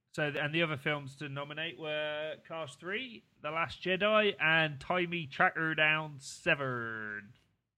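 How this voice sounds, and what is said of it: Put-on Bristolian accent. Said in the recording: “That is the second racist accent you've done on this podcast. ... doing a Bristolian”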